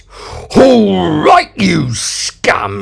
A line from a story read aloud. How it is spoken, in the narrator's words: he growled